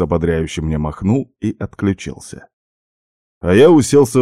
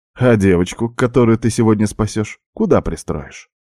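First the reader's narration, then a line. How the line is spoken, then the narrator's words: Cheerful question. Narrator (Russian): весело спросил Макс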